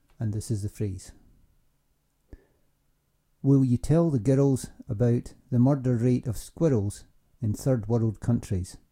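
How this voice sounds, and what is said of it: Educated Scottish accent, Fife. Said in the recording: “a recording of Scottish Standard English ... I grew up in Fife, which is an area in the Scottish Lowlands ... I have what is probably called an educated Scottish accent, the Fife accent is my natural accent”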